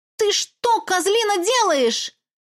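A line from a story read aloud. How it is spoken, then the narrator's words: Screaming. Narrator (Russian): Завопила я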